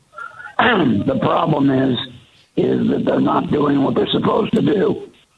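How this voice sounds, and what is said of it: Voice cutting out, unclear speech. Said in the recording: “my voice just fell out ... I could talk real clear a minute ago.”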